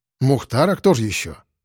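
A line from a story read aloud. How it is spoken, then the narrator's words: Snort. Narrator (Russian): хмыкнул я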